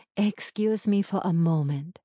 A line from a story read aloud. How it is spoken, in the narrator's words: his mother says